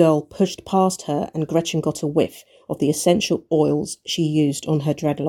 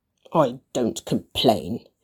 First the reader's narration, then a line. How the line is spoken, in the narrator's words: Gretchen muttered